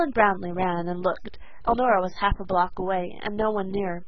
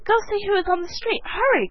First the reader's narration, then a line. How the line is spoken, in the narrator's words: cried the excited mother